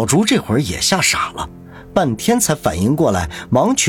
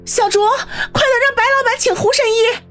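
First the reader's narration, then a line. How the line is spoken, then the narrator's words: Alarmed outcry. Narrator (Chinese): 方心失声叫道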